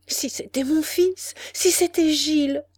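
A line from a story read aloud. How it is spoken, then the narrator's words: Crying out. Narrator (French): s'écria-t-elle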